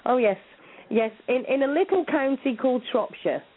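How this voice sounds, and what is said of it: British English accent. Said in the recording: “out of state, I take it. I can tell by the accent. ... I'm in the UK ... I love the accent”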